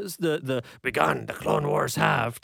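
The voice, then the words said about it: Imitates a movie character's voice. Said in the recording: “that's my Yoda impression”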